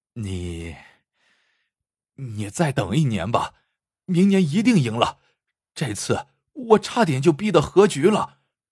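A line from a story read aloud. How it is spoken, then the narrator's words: Sighing. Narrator (Chinese): 王不败 叹道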